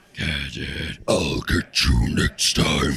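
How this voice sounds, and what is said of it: Very deep cartoon villain voice. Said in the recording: “I did a deep voice off ... I can go Dr. Claw territory ... The deep voice”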